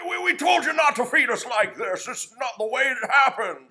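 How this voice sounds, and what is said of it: Jimmy Stewart impression. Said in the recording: “your Jimmy Stewart impression”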